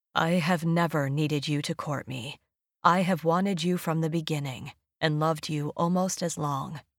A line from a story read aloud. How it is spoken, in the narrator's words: His throat worked, and a moment later he said thickly